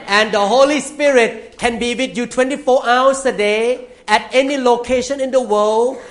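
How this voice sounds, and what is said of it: English spoken with an accent. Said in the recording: “he understands my English too. Sometimes I may speak with accent”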